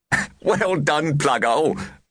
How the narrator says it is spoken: one of them managed to gasp

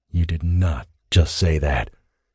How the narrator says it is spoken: Thane growled

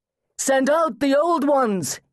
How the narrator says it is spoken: he cried

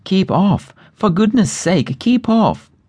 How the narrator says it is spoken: At this the others cried out

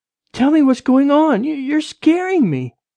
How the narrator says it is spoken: Rachel yelled

